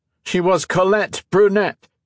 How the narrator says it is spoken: Modo shouted

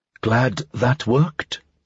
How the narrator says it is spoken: Talia said under her breath

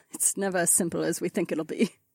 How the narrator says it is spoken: Kat chuckled

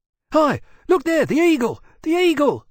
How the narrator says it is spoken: Monsey yelled in great excitement

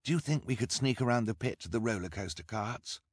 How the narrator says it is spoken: Klaus murmured to his sister

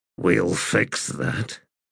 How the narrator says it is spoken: mumbled

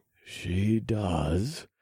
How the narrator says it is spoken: I murmured

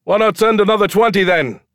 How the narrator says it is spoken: someone shouted

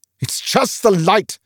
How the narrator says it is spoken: snapped Olaf

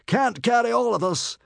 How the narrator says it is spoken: bellowed the man above the roaring of the greedy flames

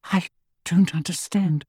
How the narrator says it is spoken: she whispered

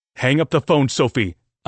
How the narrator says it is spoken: I barked at her

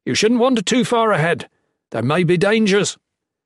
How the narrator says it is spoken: yelled

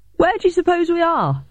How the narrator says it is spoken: I shouted to Bowden from behind the wall

